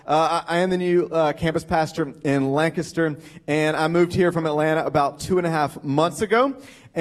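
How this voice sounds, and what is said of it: Southern American accent. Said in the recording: “apparently a southern accent”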